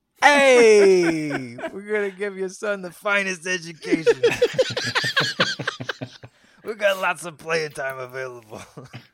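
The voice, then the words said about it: Put-on Italian-American accent. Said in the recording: “Just do an Italian accent.”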